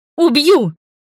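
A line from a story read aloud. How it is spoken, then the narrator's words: Furious bark. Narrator (Russian): рявкнула я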